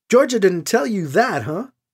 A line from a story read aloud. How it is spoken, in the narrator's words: Shira laughs